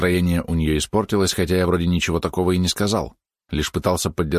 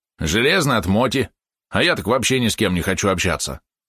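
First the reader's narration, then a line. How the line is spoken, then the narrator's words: Said, then loud hiccup. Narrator (Russian): сказал Валерон и громко икнул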